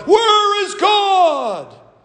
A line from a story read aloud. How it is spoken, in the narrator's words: The boy screamed